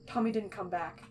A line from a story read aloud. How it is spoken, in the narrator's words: Techno blurts out